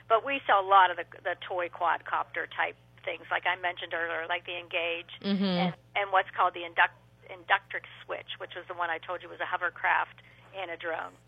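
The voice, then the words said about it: Strained, fading hoarse voice. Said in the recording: “I'm starting to lose my voice.”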